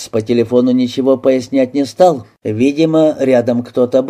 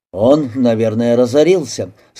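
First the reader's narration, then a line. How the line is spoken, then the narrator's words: Plain. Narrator (Russian): сказал доктор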